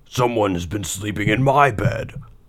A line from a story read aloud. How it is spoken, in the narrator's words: Papa Bear shouted in his great big voice